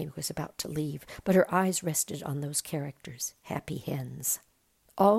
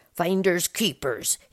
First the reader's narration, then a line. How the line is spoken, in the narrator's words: he growled